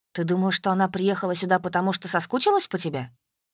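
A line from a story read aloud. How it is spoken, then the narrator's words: Plain. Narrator (Russian): спросил Максим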